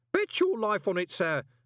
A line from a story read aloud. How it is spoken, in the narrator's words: said Groach cheerfully